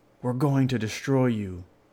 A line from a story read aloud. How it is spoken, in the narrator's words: he shouted from the doorway